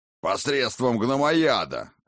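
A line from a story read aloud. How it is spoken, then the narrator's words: Gruff bark. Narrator (Russian): рявкнул гном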